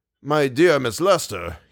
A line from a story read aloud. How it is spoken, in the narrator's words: he said